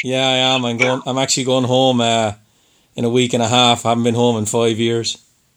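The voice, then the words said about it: Irish accent. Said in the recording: “I'm from Ireland ... I can tell you. I was just going to say you yeah. sound Irish.”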